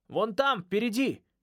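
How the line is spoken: Exclamation. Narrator (Russian): воскликнул Ной

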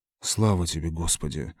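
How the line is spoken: Mumble. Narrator (Russian): пробормотал Лойс

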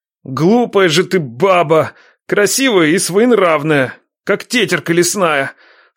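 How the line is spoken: Moaning. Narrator (Russian): Стонал Ядрей

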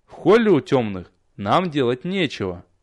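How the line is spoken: Calm reply. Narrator (Russian): спокойно отозвался я

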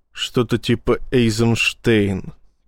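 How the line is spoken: Through gritted teeth. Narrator (Russian): процедил Рашен

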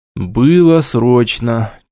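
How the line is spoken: Slightly sad reply. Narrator (Russian): чуть грустно ответил я

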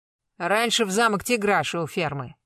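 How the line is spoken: Grumbling. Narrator (Russian): буркнула Аксинья

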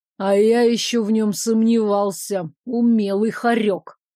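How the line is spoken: Growled. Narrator (Russian): рыкнул Арчи

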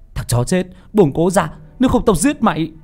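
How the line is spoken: Shouting. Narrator (Vietnamese): Nam hét lên

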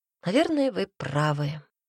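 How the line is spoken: Sighing. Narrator (Russian): Полина вздохнула

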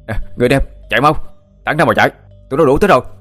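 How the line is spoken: Shout. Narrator (Vietnamese): Thắng đã hét lên

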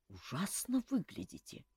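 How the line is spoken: Quiet. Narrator (Russian): негромко сказал Жак

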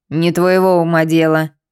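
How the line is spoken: Rude interruption, old woman. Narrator (Russian): грубо оборвала бабка

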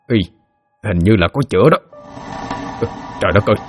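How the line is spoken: Mumbling. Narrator (Vietnamese): lẩm bẩm

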